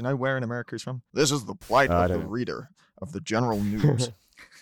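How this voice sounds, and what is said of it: Usual voice. Nothing is said of it.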